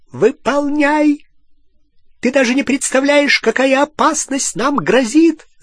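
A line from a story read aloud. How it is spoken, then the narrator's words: Shrieking. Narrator (Russian): завизжала Беллатриса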